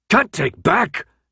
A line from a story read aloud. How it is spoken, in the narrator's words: Newt shouted